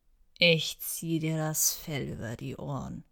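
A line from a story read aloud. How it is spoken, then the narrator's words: Low-energy growl. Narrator (German): knurrte er, doch da war keine Energie in seinen Worten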